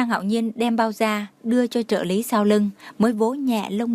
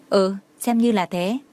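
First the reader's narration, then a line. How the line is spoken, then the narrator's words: Cold speech. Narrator (Vietnamese): Tưởng Thiên Lỗi lạnh lùng nói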